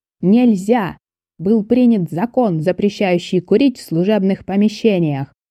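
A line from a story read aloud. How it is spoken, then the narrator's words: Yelled. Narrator (Russian): заорал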